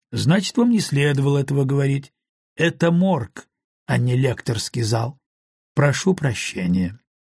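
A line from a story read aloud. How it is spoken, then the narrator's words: Softer, gentle. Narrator (Russian): более мягко сказал Том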